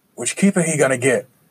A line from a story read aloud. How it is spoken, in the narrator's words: someone shouted from the back of the crowd